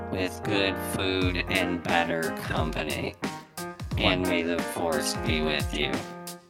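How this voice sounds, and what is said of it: Robotic voice. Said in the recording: “in your best robotic voice”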